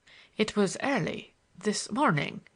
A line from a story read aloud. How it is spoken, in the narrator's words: faltered